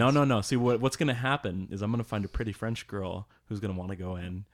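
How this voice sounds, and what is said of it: Usual voice. Nothing is said of it.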